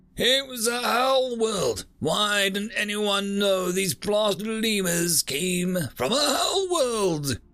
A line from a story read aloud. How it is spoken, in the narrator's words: Another bellowed at the cringing subordinate